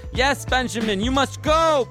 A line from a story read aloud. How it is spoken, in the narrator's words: Pinochet yells out